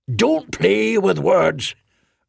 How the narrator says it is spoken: Arnath roared

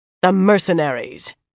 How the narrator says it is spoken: Dailin growled

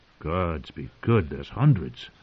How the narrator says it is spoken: a voice said softly

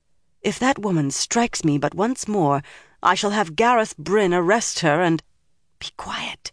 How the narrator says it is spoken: Egwene whispered

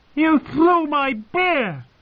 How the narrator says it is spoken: Varga Hoet shrieked

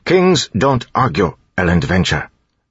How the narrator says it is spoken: Tyndall said firmly

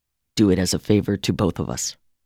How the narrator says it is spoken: Tim said to me in a gentle voice

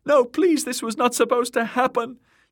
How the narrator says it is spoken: Myrcella shrieking too, her voice shrill with fear

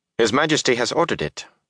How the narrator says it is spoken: Calderwin said sharply

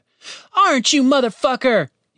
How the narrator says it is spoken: shouted

